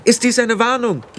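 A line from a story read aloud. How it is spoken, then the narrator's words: Called out. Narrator (German): rief Tiffany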